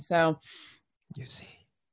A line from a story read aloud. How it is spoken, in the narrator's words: he whispered